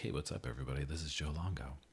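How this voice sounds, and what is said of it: Deep late-night radio DJ voice. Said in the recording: “tap into my late night radio voice ... It's only deep, 3 o'clock ... I was born with that radio voice”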